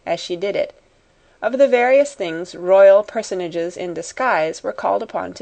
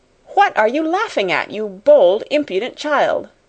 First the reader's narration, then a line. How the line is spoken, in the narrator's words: Miss Minchin exclaimed